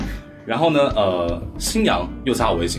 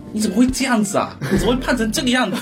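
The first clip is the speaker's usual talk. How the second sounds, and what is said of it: Playful teasing Minnan accent. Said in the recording (Chinese): “就是用那种闽南口音，就很可爱那种调侃。... 他就喜欢就用这种口音”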